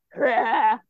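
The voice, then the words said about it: Chewbacca roar impression. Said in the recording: “best Chewie impression”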